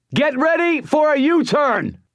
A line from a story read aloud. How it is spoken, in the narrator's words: shouted